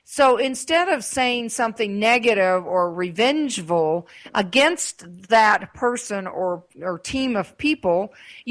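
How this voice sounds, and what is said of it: Southern accent. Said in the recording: “I have a southern accent”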